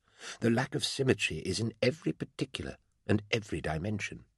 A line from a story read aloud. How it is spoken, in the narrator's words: Amos said quietly to me